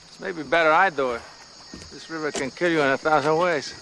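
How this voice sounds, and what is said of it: Ambiguous put-on foreign accent. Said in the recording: “I don't know what this accent's supposed to be ... he's from Paraguay ... It's so ambiguous”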